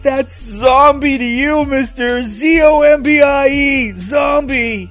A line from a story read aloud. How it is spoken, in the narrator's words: Without even thinking, Carl yelled back